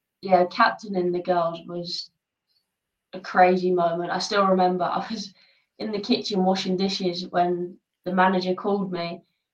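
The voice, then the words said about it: English accent. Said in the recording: “we both had sort of English accents ... a pure English accent”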